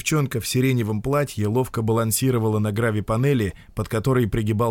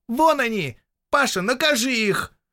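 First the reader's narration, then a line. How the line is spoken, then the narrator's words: Ringing girl's shout. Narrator (Russian): звонкий девичий голос крикнул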